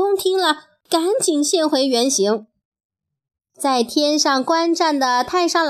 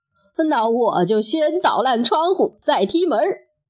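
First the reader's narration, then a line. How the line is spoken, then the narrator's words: Amused, laughing. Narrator (Chinese): 二郎神一看就知道是悟空耍的戏法，笑着说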